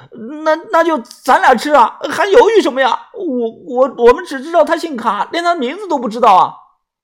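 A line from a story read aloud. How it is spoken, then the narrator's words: Broken, halting cries. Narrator (Chinese): 墙角传来了断断续续的叫声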